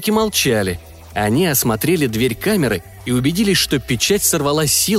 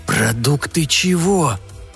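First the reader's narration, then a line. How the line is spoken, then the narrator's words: Hissed. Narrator (Russian): прошипел Зафот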